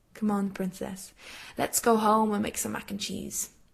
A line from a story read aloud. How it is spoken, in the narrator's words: Surprised, Jared slides an arm around her, squeezing briefly and saying softly